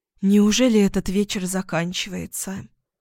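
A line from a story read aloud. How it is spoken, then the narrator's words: Breathy exhale. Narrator (Russian): выдохнула Ксения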